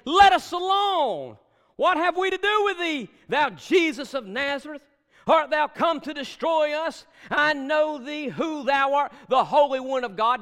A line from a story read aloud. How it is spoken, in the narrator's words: He screamed, saying